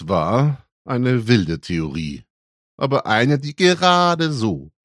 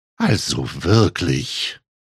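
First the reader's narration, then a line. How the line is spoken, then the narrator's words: Murmuring. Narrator (German): murmelte sie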